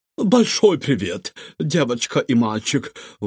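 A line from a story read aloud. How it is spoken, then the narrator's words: Breathy exhale. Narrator (Russian): выдохнула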